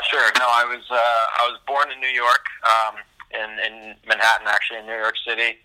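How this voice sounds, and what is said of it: American accent. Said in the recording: “not many European tour players have a US accent”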